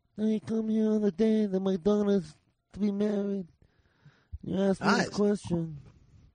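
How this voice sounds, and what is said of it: Imitates another person's voice. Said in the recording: “even do a Brando impression ... That's a good Brando.”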